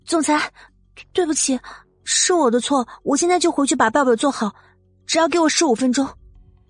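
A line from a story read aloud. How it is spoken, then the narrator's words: Loud, abrupt interruption. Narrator (Chinese): 季如锦忽然大声打断了他的话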